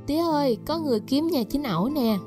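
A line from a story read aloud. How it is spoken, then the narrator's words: Smiling loud call. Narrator (Vietnamese): Chị chủ quán mỉm cười kêu lớn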